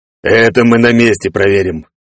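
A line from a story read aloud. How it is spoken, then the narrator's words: Snorting big man. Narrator (Russian): хмыкнул здоровяк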